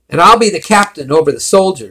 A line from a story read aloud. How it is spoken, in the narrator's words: shouted Carlo